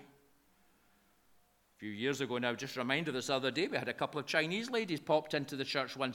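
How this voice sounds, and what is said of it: Broad Lanarkshire Scottish accent. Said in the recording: “my broad Lanarkshire accent”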